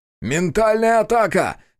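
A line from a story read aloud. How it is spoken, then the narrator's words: Shouted. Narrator (Russian): крикнул я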